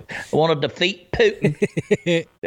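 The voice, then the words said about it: Lindsey Graham impression, southern accent. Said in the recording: “a gay guy from South Carolina with a little southern accent go”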